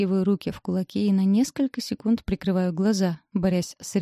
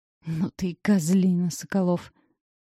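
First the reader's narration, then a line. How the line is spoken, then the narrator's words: Growled. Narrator (Russian): Успеваю прорычать я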